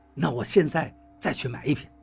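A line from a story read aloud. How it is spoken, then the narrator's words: Low voice. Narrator (Chinese): 王八低声道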